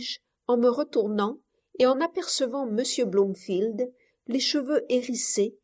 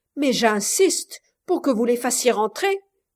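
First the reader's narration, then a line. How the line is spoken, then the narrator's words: Furious shout. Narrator (French): s'écria-t-il paraissant furieux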